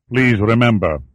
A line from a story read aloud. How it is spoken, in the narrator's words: he said, his tone rock hard